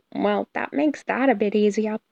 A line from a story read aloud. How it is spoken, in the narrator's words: Peter muttered